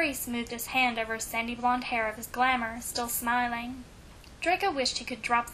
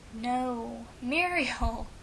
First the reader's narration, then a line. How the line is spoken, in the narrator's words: Harry laughed